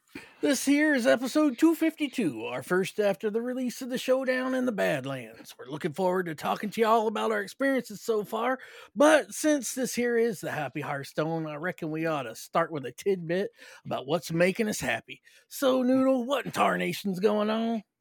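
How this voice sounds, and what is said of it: Put-on accent. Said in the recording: “I love that you have started with talking with that accent.”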